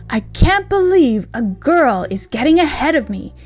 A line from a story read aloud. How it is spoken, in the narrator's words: he exclaimed